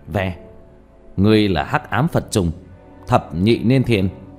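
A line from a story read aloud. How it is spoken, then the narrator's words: Cold shout. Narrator (Vietnamese): lạnh giọng hét lên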